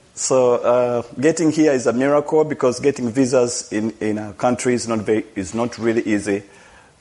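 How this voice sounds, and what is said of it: Non-native English accent. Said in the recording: “my accent, because English is my second language”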